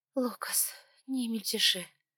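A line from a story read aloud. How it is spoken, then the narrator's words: Calm, deep exhale. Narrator (Russian): Выдохнула избранная, и дыхание ее было куда спокойнее и глубже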